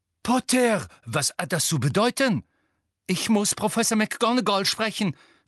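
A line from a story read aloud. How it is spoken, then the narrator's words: Breathless panting gasp. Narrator (German): keuchte Harry mit zum Reißen gespannten Lungen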